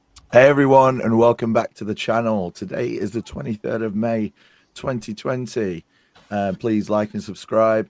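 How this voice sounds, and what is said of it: Very husky voice. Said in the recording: “You may be able to tell that my voice is extremely husky”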